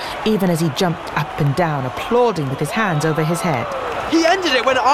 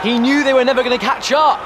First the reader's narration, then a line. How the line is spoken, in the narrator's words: Harry shouted back over all the noise